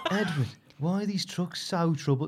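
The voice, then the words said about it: Put-on Brummie accent. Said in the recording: “No, it's Brummy. ... That's a way better accent.”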